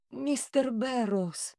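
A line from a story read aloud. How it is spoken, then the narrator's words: Breathed out. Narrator (Russian): Выдохнула Диана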